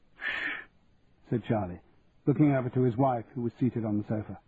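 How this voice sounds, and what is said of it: Usual voice. Nothing is said of it.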